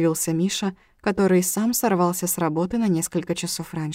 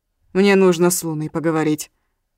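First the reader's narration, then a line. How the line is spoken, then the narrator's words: Stern voice. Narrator (Russian): строгим голосом произнес он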